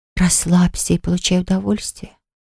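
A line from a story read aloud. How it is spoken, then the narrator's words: Angelic whisper. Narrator (Russian): прошептала голосом ангела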